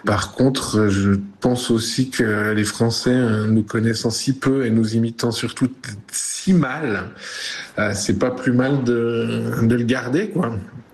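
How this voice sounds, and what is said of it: Swiss French Vaud regional accent. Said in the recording (French): “Yann Marguerre, humoriste, Pays de Vaud. Ma relation à mon accent est bonne ... j'ai pas l'impression d'avoir gommé mon accent pour la France”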